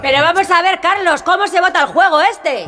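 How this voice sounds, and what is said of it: Shouting, agitated voice. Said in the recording (Spanish): “no grites.”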